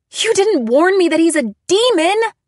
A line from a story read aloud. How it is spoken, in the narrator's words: I screamed